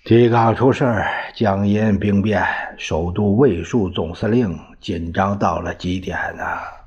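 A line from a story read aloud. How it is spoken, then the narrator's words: Sighing. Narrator (Chinese): 黄绍谷叹了一口气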